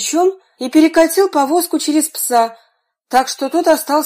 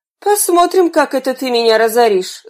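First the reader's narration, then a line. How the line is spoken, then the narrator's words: Coachman grumbling under breath. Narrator (Russian): Извозчик проворчал себе под нос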